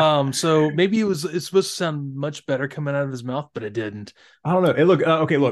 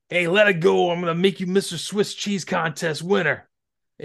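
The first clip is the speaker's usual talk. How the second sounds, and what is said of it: Put-on New York accent. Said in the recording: “in his New York accent”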